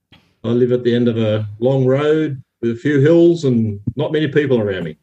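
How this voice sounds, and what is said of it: Australian accent. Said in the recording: “you sound different ... I'm Queensland, Australia”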